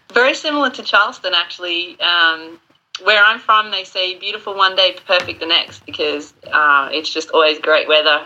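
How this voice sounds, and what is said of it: Australian accent. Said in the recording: “hear an accent, she originally started her franchise in Australia”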